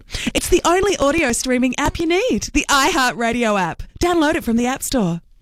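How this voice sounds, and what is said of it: Announcer-style radio voice. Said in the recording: “I'm going to put my radio voice on.”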